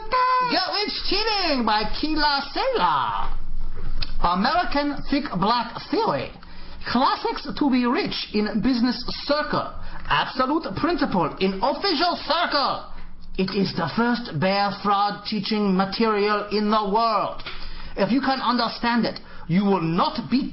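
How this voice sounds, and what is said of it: Exaggerated put-on Asian accent. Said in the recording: “my accent? ... without the accent? ... Chinese Elmer Fudd ... That's really more Korean.”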